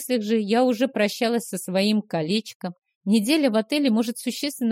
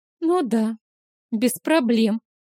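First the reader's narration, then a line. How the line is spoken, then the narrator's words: Sad snort. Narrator (Russian): печально хмыкнула Стэсси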